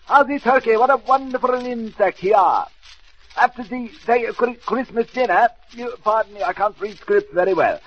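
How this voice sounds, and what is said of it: Put-on French chef accent. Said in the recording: “Maurice Lafouille, the famous French chef ... This is really me in dialect”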